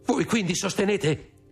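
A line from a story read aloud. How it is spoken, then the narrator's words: Exclaimed. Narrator (Italian): esclamò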